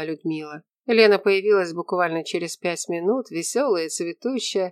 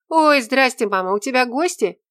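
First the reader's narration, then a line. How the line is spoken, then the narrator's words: Exclaimed. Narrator (Russian): воскликнула она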